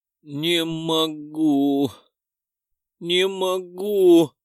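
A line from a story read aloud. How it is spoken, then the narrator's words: Whimpering. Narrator (Russian): захныкала она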